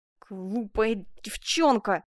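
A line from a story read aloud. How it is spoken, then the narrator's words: Grumbling through teeth. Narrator (Russian): проворчал сквозь зубы Приво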